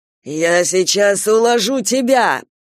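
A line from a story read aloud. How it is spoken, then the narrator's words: Growling. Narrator (Russian): прорычал Кастел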